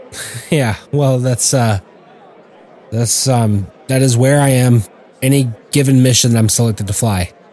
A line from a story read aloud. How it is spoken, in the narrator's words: Tommy said in a serious tone